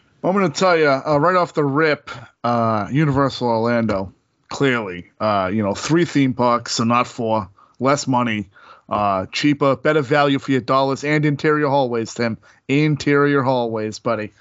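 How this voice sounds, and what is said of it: Put-on South Boston character accent. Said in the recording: “what the heck is that accent?... Cousin from Southie's coming in tonight.”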